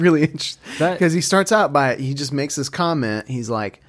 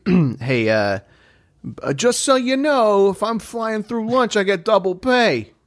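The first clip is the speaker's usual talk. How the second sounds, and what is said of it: Comedic impression of a pilot character. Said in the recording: “That was a great impression. ... my Brian Regan pilot”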